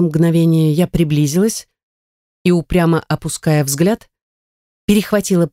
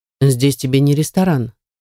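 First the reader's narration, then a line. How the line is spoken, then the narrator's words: Reasonable remark. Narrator (Russian): заметил Артур резонным тоном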